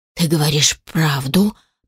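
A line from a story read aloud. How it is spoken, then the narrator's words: Rasping snarl. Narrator (Russian): прохрипел он, оскалившись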